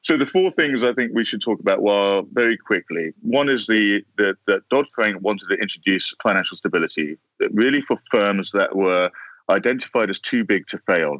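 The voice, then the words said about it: British accent. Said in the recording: “You got that British accent ... make anything sound sexy and smart”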